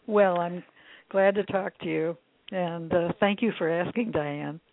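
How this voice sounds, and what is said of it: Slightly raspy voice. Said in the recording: “sorry for my voice. It's a little raspy. I haven't had enough water to drink yet today ... raspy or not”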